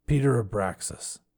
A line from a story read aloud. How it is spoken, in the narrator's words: he said in a faraway voice